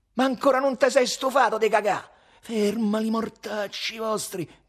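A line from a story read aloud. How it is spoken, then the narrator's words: Desperate shout. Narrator (Italian): gridò il cagone disperato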